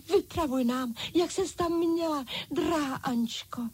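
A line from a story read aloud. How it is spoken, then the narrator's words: Dolls crying out. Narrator (Czech): vykřikli panenky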